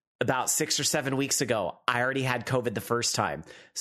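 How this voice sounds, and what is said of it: Slightly off, ill-sounding voice. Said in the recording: “my voice is a little off because ... I got COVID. So I'm recovering.”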